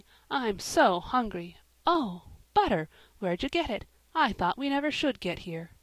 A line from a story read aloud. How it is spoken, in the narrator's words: said Joel, coming in crossly